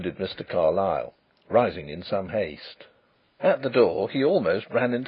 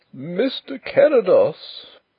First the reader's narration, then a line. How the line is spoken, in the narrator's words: wailed the poor old gentleman in a tremulous bleat